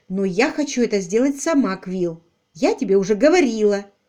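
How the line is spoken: Sharp speech. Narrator (Russian): резко сказала

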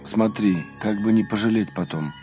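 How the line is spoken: Tired. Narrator (Russian): устало сказал отцу Рафаилу

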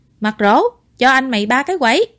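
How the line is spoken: Loud call downstairs. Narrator (Vietnamese): Ngụy Khiêm ... lớn tiếng

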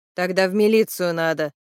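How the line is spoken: Grumble. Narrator (Russian): проворчала Людка

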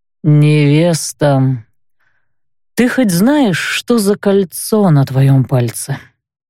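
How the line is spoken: Weary sighing question. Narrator (Russian): глубоко вздохнул и с какой-то усталостью спросил

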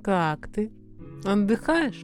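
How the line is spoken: Cooing with feigned warmth. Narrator (Russian): Сделанной теплотой в голосе проворковала

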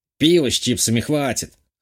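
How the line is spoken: Snorting. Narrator (Russian): хмыкнул тот

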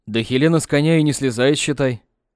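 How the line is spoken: Snorting. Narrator (Russian): Хмыкнул санитар

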